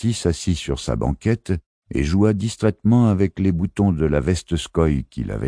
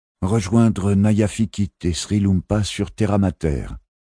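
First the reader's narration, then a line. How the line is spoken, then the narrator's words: Plain. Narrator (French): répondit-il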